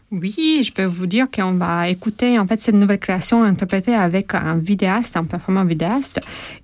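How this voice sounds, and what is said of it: Non-native accent in French. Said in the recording (French): “Mon accent ... Tu parles très bien français.”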